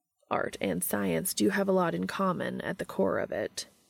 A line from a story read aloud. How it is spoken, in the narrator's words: said